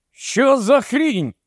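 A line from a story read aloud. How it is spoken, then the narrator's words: Shout. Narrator (Ukrainian): крикнув Микола, наче на нараді у ТПУ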